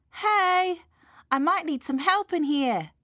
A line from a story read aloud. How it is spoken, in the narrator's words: shouted Mum